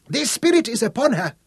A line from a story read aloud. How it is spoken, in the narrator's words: shrieked the old witch